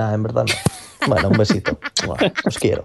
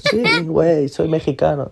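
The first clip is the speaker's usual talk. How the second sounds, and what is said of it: Put-on Mexican accent. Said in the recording (Spanish): “me encanta cuando este, un extranjero hace acento mexicano, lo primero que, hace es decir, güey ... eso es el parteaguas del, del acento mexicano”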